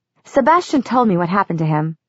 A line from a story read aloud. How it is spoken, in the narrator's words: she went on in the same flat voice